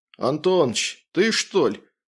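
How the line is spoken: Displeased mutter. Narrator (Russian): пробурчал недовольно прапорщик

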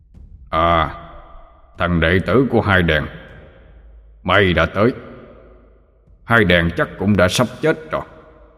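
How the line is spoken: Deep thunderous voice. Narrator (Vietnamese): Abraham giọng ông ta ồm ồm như sấm

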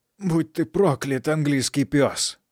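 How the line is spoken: Hoarse rasping. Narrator (Russian): хрипел один

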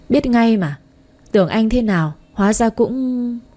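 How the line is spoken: Sighing. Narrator (Vietnamese): Nam trợ lý thở dài

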